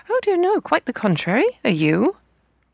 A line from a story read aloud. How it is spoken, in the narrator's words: she said in a most cheerful voice